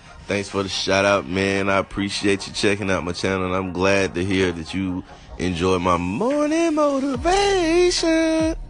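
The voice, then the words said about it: Slightly raspy voice. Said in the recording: “Excuse me, a little raspy. Think I'm catching a cold.”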